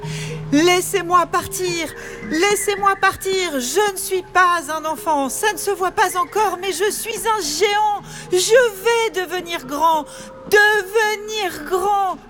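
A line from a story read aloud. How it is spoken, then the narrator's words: Screaming into emptiness. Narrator (French): hurla-t-il dans le vide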